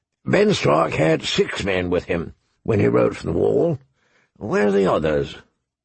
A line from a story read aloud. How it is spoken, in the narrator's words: the old bear said gruffly